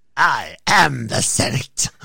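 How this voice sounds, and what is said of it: Good impression of a sinister villain voice. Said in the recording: “That's a pretty good impersonation, actually. ... your Palpatine puts a little wry smile on my face”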